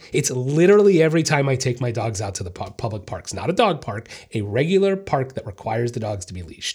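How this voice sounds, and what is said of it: Upset, agitated voice. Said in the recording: “I sound upset”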